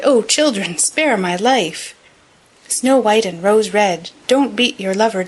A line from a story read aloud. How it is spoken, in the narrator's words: he cried